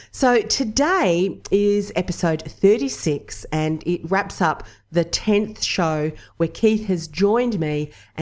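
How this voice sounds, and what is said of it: Nasal, congested voice. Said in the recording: “I'm still sounding a little bit nasally.”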